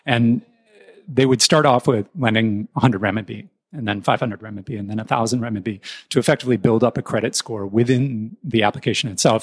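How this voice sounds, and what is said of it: American accent. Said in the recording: “you can tell from my accent, I'm American.”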